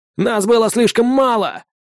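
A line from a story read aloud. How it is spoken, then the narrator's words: Shout. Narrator (Russian): крикнул тот же голос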